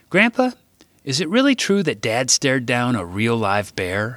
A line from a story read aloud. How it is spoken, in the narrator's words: I asked